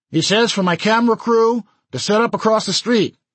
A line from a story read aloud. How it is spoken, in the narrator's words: yelled